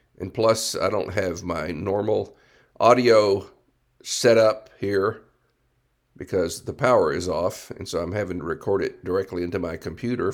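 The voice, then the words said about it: Hoarse, strained voice. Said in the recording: “my voice is not very good right now. Got a little bit of a sore throat, kind of hoarse.”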